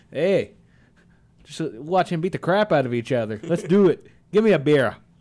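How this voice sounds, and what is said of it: Put-on Canadian accent. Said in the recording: “I like that Canadian accent you got right there.”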